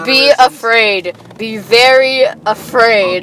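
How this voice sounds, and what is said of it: Funny, creepy imitated movie voice. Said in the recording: “It's a funny voice, it's funny mannerisms ... as funny-ish as that voice is, it's really creepy.”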